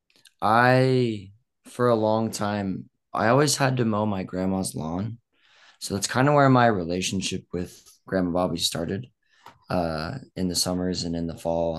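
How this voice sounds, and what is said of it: Weak, fading voice. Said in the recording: “my voice is kind of fading”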